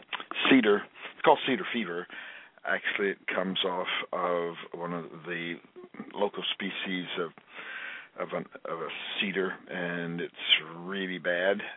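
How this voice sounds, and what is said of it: Slightly hoarse voice. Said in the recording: “a little hoarse, gone through this cataclysmic allergy season”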